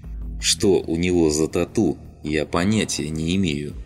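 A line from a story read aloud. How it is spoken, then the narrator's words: Answered through gritted teeth. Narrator (Russian): сквозь зубы ответил Солома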